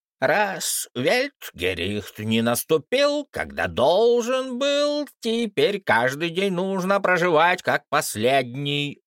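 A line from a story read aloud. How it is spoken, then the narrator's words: Shrill prophet. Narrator (Russian): визгливо сообщил пророк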